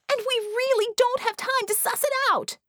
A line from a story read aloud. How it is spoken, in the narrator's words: Scope screamed